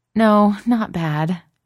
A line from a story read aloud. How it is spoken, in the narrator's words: Gigi laughs